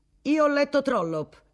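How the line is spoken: Former minister exclaiming. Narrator (Italian): esclamò un ex ministro degli esteri

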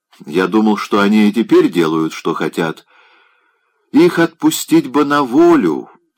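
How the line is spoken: Plain. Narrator (Russian): сказал он

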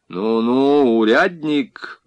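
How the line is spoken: Colonel's menacing interruption. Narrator (Russian): грозно прервал его полковник

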